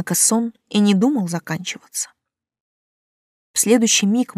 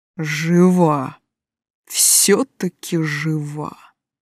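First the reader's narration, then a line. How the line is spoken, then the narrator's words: Eerie otherworldly voice. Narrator (Russian): каким-то жутким потусторонним голосом проговорил он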